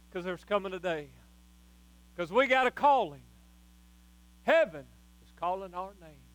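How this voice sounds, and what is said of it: Shouting preacher. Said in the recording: “why I'm shouting”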